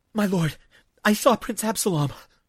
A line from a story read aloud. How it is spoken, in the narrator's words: Obed gasped, as if the news might have killed him had he held it longer